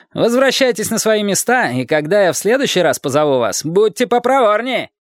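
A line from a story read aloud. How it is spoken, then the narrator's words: Shout. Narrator (Russian): крикнул горбатый предводитель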